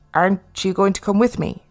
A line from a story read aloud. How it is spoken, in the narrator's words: Philip asked